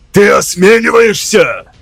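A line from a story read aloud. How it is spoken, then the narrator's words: Shouted. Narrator (Russian): выкрикнул я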